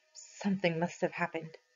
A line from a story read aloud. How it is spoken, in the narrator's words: Muttering